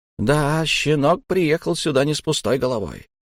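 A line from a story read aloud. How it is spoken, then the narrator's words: Muttering. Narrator (Russian): пробормотал он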